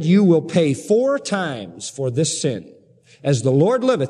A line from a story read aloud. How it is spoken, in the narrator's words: he said